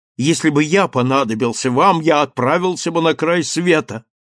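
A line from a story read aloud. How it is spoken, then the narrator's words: Quick shout into phone. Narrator (Russian): быстро крикнул он в телефонную трубку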